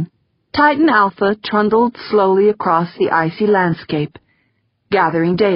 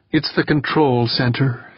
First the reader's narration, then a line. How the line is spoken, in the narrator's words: said, her voice low